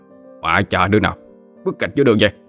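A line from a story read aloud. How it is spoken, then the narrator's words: Shout. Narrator (Vietnamese): Thằng Hiếu quát lên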